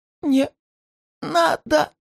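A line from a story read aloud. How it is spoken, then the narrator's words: Woman's strangled wheeze. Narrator (Russian): Кое-как прохрипела женщина сквозь сдавленную глотку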